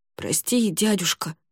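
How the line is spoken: Mumbled. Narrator (Russian): пробормотала она

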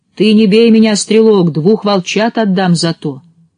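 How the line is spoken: Shout, wolf. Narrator (Russian): волк как закричит

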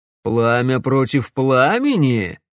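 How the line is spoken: Laughing. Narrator (Russian): рассмеялся Доминик

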